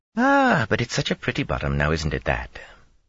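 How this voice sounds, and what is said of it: Lilting fantasy accent. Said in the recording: “someone else said in a lilting Mirandian accent.”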